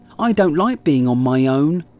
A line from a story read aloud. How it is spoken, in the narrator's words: he grumbled